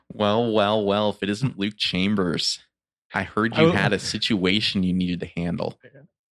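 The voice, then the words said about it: Imitates another person's voice. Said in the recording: “You better dust off that impression.”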